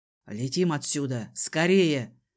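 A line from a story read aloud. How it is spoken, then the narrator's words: Strained growl. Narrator (Russian): рыкнул он, чему-то сопротивляясь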